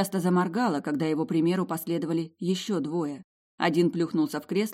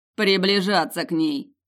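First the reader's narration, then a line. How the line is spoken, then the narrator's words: Wry grunt. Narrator (Russian): хмыкнул тот, что с гориллой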